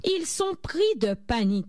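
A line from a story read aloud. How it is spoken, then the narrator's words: Shouted. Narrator (French): cria Monsieur Crayon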